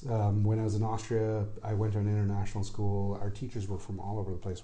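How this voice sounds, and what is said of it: Mixed international, American-leaning English accent. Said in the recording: “they realized right away that I was not really from there ... people thought that I was Scandinavian ... somebody from, you know, Austria to speak with more of an American accent ... this unique kind of international school accent”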